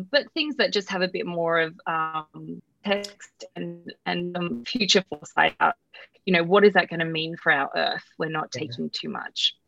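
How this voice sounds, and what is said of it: Australian accent. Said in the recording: “dialing in from Australia, thus your gorgeous accent. ... I love your voice.”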